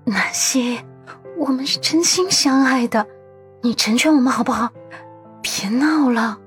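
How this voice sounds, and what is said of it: Soft, pleading whisper. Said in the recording (Chinese): “小声哀求”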